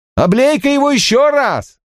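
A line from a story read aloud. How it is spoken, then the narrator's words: Shout. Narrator (Russian): Кто-то крикнул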